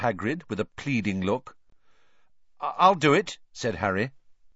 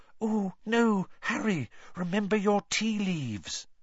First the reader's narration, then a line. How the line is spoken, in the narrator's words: both Lavender and Parvati whispered